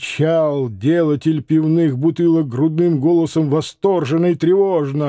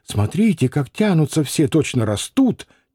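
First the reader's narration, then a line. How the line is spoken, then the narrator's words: Quiet. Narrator (Russian): тихо сказала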